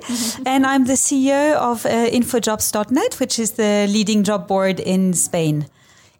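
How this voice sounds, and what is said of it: French accent in English. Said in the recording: “I'm French, as you can hear from the accent, which doesn't want to go away.”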